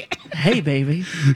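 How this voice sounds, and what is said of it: Husky, sultry voice. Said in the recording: “I'm losing my voice, I think, a little bit ... can you tell? A little sultry?”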